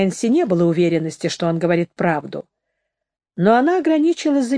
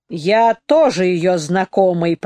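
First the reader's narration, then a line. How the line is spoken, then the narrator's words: Through gritted teeth. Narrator (Russian): процедил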